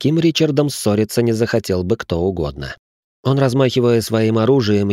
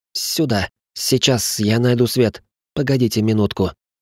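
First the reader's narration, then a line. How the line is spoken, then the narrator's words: Squeaky, suddenly hoarse voice. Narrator (Russian): пропищал профессор внезапно севшим голосом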